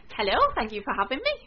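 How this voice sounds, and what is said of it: Bright, cheerful telephone voice. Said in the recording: “What a very nice, cheerful voice. ... My telephone voice.”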